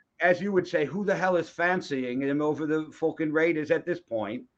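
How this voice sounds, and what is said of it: Bad fake British accent. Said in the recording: “a bad British accent.”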